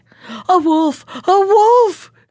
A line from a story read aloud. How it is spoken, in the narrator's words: cried, and that was all he could say